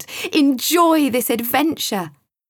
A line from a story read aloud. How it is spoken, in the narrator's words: shouted with excitement